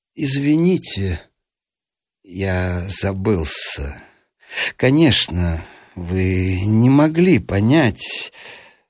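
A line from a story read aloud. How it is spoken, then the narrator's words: Calm despite being hurt. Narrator (Russian): задетый за живое, но ответил спокойно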